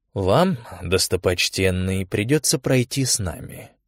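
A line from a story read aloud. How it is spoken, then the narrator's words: Quiet, burly monk. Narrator (Russian): тихо сказал самый могучий из монахов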